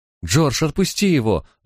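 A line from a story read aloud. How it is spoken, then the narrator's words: Distressed exclamation. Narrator (Russian): ломая руки, воскликнула Бетшеба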